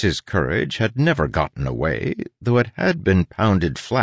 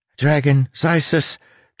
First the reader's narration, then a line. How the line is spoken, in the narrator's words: Tress said, her voice ragged